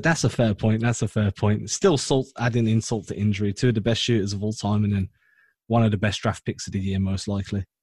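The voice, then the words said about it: English accent. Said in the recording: “based on your accent, are you based in Australia? ... England.”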